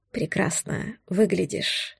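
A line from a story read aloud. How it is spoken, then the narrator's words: Casual whisper. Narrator (Russian): прошептал император, словно они встретились на прогулке в парке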